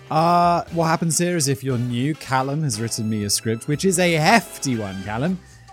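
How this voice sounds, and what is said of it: British accent. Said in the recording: “from my home country, the UK. Just in case you couldn't tell by my accent.”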